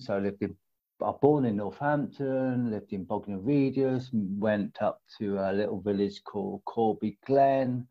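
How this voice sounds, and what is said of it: Varied mixed English regional accent. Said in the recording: “Moved around a lot when we was children, so I've got a very varied accent.”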